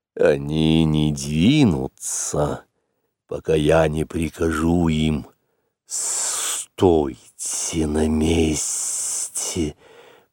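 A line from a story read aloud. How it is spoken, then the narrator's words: Hissing. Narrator (Russian): прошипел Каа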